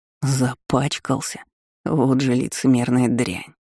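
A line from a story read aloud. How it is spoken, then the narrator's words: Growling. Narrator (Russian): рычал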